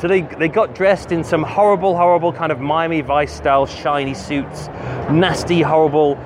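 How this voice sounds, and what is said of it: Usual voice. Nothing is said of it.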